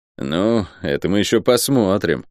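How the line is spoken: Disapproving grunt. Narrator (Russian): неодобрительно хмыкнул Лук

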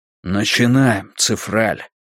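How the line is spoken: Whisper. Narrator (Russian): прошептал Драккайнен

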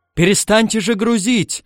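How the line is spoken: Shouting right at ear. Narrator (Russian): закричал у него над ухом Пагава

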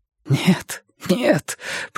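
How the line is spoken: Whisper. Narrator (Russian): прошептал Керн

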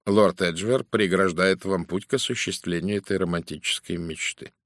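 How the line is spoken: Dry. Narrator (Russian): сухо сказал Пуаро

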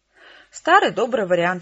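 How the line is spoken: Cheerful reply. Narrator (Russian): весело ответил Кол

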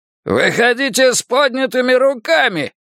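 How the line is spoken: Hoarse commanding shout. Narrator (Russian): прокричал Билл хрипловатым командным голосом

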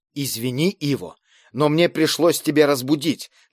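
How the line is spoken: Hurried whisper. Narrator (Russian): торопливо зашептал голос

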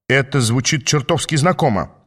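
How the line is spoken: Grumbling. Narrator (Russian): пробурчал Квигли

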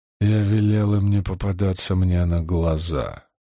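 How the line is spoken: Hoarse. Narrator (Russian): хрипло ответил Ранд

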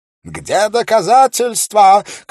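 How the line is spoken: Shouted, strong accent. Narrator (Russian): крикнул геновезец с сильным акцентом

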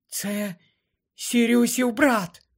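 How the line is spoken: Whispered. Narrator (Ukrainian): прошепотіла вона

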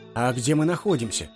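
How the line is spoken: Plain. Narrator (Russian): спросил Хаджуна Средин

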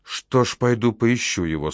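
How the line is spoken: Irritated sigh. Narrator (Russian): Сейхан раздраженно вздохнула

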